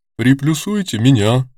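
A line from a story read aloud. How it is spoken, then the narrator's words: Deep bass voice. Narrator (Russian): произнесла басом Луиза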